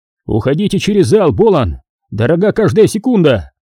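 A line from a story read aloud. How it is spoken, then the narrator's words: Irritated shout, major. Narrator (Russian): на лице майора мелькнуло выражение досады, и, остановившись, он крикнул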